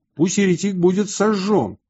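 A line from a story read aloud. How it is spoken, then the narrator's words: Crowd shouting. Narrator (Russian): Народ кричал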